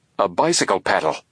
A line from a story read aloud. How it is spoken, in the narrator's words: he exclaimed